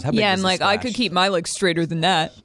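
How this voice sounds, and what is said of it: Obnoxious, condescending diver voice. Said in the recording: “What was that voice? Obnoxious, condescending diver person? ... That was an impression of me watching people dive.”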